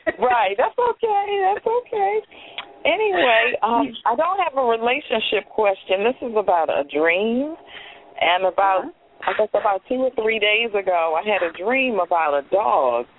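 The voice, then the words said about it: Hoarse voice. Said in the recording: “I'm a little bit hoarse. ... I didn't recognize your voice. ... I'm a little bit hoarse.”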